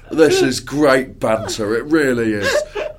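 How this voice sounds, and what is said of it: Imitates another person's voice. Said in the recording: “my Steve Coogan impression”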